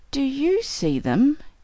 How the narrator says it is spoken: he asked, his voice trembling with expectancy

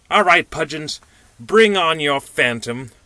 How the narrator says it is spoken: cried the little man in conclusion

